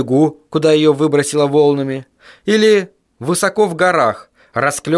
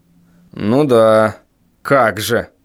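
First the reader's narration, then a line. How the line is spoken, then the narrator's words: Sarcastic snort, father. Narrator (Russian): саркастически хмыкнул отец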